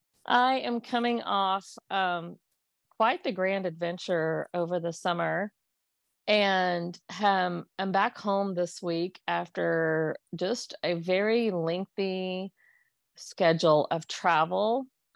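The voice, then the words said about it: Tired-sounding voice. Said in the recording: “my voice sounds a little tired to you today, it is because my voice is tired”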